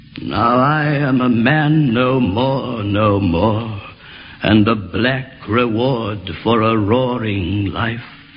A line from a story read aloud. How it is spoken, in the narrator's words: sighed the old ramrod, dying of strangers